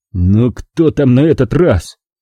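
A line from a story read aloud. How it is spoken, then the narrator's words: Angry growl. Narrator (Russian): прорычал я, радуясь возможности сорвать зло не на Анжеле, а на ком-нибудь другом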